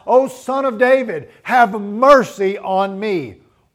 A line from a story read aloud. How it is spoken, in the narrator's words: cried out